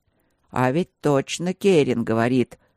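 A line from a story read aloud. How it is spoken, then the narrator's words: Uncertain interjection. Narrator (Russian): неуверенно вмешался еще один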